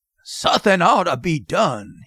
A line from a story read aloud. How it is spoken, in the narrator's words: he growled